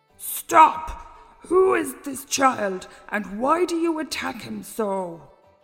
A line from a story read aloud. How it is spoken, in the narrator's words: a great voice booming out